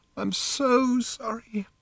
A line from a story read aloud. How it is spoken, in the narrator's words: she said again, sobbing